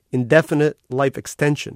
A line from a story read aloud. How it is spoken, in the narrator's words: said